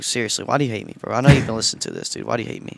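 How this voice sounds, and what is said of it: Whiny, complaining tone. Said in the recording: “that voice you're hearing a whine”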